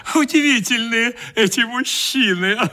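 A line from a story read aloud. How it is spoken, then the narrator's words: Laughing. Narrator (Russian): говорила, смеясь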